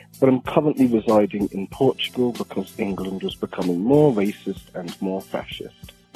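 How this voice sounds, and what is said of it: English accent. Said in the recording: “I'm English, as you probably can tell by my voice”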